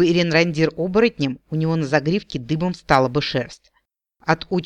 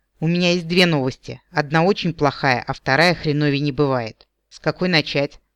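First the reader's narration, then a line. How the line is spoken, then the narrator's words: Asked gloomily. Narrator (Russian): мрачно спросил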